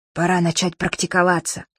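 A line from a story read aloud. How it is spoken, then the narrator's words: Whispered. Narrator (Russian): Абдулла шепнул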